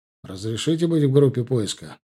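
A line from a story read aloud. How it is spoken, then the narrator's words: Cold. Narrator (Russian): сказал я холодно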